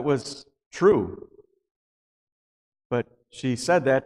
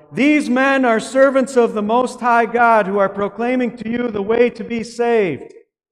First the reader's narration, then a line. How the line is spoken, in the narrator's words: this slave girl would yell